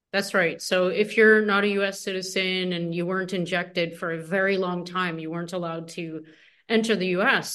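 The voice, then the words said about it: Canadian English accent. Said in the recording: “You're Canadian. I got that, and that should be clear from the accent.”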